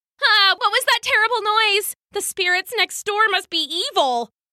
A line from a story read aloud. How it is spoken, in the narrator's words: She screamed